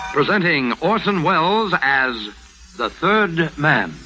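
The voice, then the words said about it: Old-time radio announcer voice. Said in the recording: “does that voice so well. He's the announcer.”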